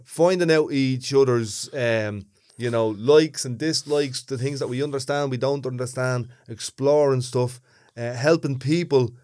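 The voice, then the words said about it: Thick Dublin accent. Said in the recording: “listen to my accent on a podcast ... With a big thick Dublin accent”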